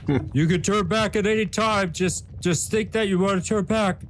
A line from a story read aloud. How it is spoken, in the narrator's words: yell